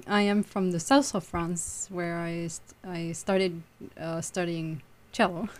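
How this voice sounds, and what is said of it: Slight French accent. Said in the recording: “a slight little accent, not too bad, but we can tell that you're not from Providence”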